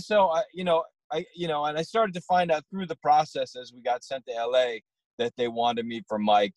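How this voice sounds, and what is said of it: Strong regional accent. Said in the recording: “I got a wicked hardcore accent”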